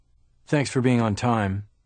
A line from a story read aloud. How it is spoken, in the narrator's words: said in a flat voice